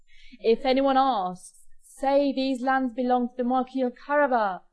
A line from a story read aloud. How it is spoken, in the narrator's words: Puss and Boots shouted to the peasants working in the fields